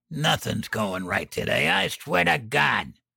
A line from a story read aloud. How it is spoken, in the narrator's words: He clenched his teeth and snarled